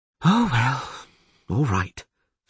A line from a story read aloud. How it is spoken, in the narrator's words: she sighed